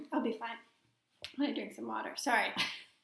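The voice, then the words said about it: Froggy, smoky hoarse voice. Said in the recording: “I sound like a frog ... right now it sounds froggy ... All smoky, I mean, look at that smoky vibe.”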